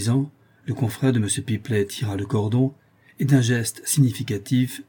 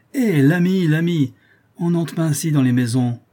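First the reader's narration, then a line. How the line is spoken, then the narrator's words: Exclaimed while running. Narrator (French): s'écria le portier en courant après le comte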